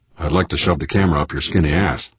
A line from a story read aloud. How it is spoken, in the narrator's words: Tavalera growled silently